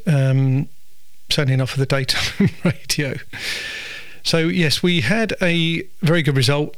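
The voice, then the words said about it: Soft, slightly husky voice. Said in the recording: “my kind of softish, husky-ish, weird voice. It's not really a radio voice.”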